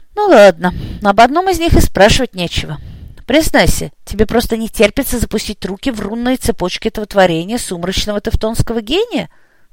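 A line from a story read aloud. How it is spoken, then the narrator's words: Sighing question. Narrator (Russian): вздохнув, спросил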